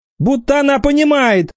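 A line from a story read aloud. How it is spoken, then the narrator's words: Shouted. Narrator (Russian): крикнул Витька Воробьев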